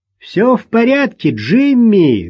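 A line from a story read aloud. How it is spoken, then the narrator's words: Loud, over engine noise. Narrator (Russian): громко сказала Рут, перекрикивая шум прогреваемого мотора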